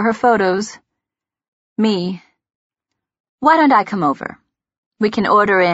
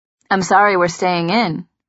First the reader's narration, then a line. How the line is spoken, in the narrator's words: he says